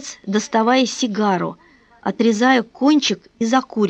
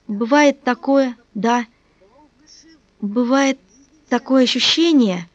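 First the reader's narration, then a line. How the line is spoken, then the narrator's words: Slow. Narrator (Russian): медленно продолжал сын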